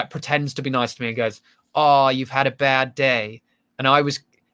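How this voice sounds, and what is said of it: Put-on American accent. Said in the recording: “you just spoke with an American accent for a moment when you did the line from the play”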